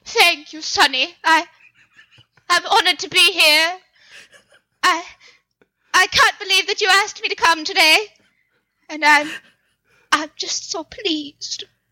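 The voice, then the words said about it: Old-timey mid-Atlantic movie accent. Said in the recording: “the old timey movie mid-Atlantic oh! accent ... Will you mid-Atlantic accent for me ... It's so beautiful, it makes me weep.”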